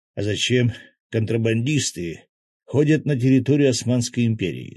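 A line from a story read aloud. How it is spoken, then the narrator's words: Plain. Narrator (Russian): спросил Свят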